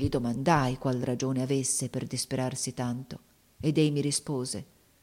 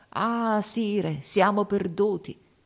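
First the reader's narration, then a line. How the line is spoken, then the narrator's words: Exclaiming. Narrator (Italian): esclamò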